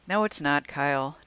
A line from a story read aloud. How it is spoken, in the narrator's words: Jackie said